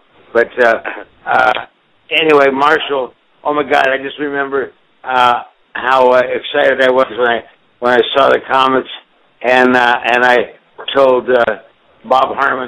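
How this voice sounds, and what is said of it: Slightly slurred, drunk-sounding speech. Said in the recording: “I sound a little drunk, ... if I sound a little slurry”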